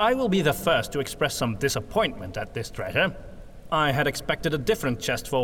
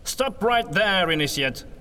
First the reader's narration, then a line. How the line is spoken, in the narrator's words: Von Baumeister exclaimed